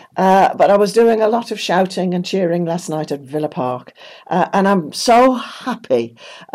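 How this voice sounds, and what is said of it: Croaky, hoarse voice. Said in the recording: “my voice is a bit croaky ... I can hardly talk”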